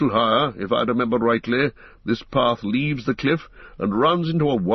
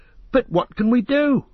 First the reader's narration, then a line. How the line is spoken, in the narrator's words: cried Pippin miserably